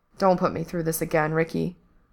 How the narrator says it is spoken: Frank said quietly

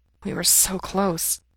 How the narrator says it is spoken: he murmurs

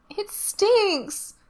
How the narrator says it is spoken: says, whining

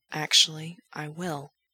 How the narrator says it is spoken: Gerard says, whispering the words close to Frank's ear

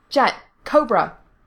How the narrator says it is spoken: he barked

